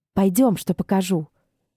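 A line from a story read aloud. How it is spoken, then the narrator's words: Whispered. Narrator (Russian): Кхира шепнула рано проснувшейся Эшлин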